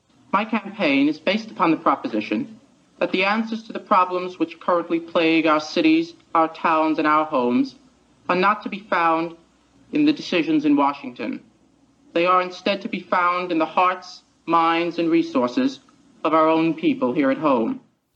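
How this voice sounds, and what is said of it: Slight Queens accent, RFK-like intonation. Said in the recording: “The intonation was exactly Robert F. Kennedy. ... It was a slight Queens accent. ... With a slight Queens accent”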